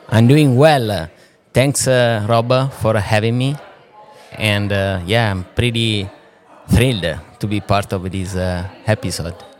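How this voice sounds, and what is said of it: Italian accent. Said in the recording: “there's a little accent there ... I'm Italian ... the accent... accent is still there”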